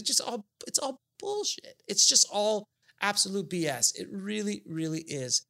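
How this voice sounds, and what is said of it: Passionate, emphatic speaking. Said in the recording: “as you can hear it in my voice, I'm fairly passionate about this.”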